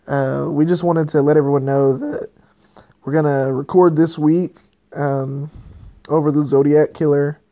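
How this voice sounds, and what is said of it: Slightly hoarse, strained voice. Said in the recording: “my voice is a little bit hoarse and shot. ... I'm not not doing so good voice wise,”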